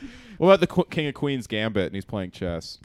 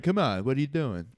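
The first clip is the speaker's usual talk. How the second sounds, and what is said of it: Put-on Queens New York accent. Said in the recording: “What is the Queens accent? ... It's kind of”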